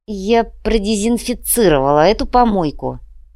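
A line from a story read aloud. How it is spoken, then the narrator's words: Grumbled. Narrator (Russian): буркнула Инга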